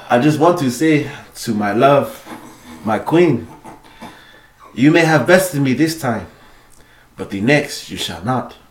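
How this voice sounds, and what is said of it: Put-on Wakandan accent. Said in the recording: “I got this voice. I'm working on the T'Challa accent. No, not T'Challa. You know, the Wakandan accent.”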